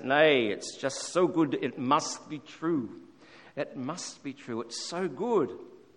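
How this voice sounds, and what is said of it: Put-on Scottish accent. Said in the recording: “in his Scottish accent”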